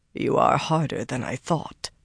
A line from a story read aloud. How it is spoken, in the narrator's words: Taim muttered